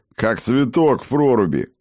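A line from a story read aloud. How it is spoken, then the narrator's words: Short laugh. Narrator (Russian): хохотнул Скьёльд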